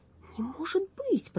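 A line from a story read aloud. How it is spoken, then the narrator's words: Muttered. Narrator (Russian): пробормотал Страшила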